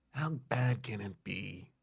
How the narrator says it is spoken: Sam mutters under his breath

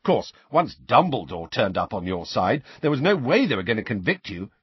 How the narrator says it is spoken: said Ron happily

